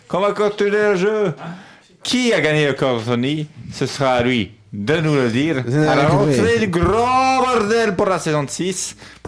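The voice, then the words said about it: Put-on Marseille accent. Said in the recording (French): “Pourquoi j'ai pris l'accent massalé?”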